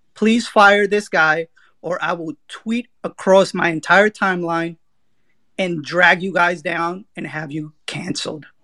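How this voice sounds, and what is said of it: Entitled complaining Karen voice. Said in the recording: “if you can hear it in my voice, my middle name is Karen”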